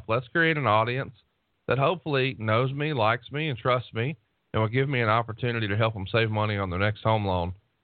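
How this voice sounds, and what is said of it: Soft Southern US accent. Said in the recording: “you got that sweet, soothed Southern accent. Everyone's going to trust an Alabama guy.”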